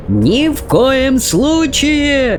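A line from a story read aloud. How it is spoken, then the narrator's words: Yelling. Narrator (Russian): вопил в ответ мистер Уонка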